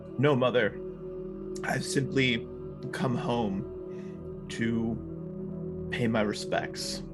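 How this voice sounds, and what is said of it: Character voice. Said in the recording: “At his best Shazo voice”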